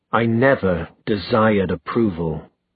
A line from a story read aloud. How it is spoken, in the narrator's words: said Sebastian through gritted teeth